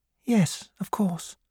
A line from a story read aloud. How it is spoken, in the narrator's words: she said quietly